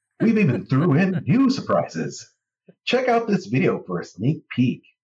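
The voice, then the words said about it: Disney-style character voice. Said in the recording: “read this in my Disney voice?”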